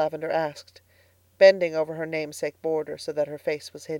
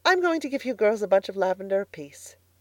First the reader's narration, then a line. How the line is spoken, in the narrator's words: said Miss Lavendar brightly, as if she had not heard the answer to her question